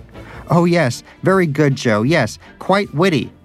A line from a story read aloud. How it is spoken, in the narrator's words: shouted Danish